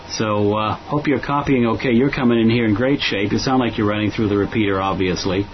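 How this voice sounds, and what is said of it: American Boston accent. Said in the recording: “the accent says I'm not a Brit, but I'm from Boston originally”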